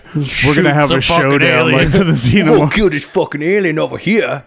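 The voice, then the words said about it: Poor imitation of another person's voice. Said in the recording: “do a Danny McBride impression, but that is the worst one I've ever”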